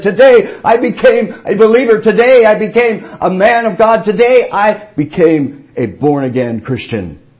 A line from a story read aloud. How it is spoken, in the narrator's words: shout and praise God